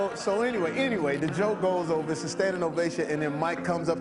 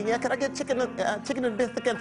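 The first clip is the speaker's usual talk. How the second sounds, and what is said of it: Imitates another person's voice. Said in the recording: “worst impression ever”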